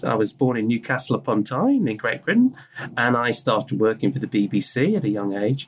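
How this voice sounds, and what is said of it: British accent. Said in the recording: “I'm British, you can hear from my accent.”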